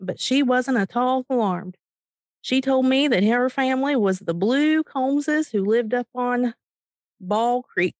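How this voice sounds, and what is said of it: Eastern Kentucky accent. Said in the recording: “my Eastern Kentucky impression. ... I can do that because I'm from Eastern Kentucky.”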